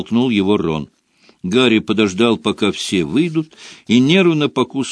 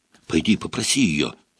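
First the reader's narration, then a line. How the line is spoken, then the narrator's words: Whisper. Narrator (Russian): шепнул Рон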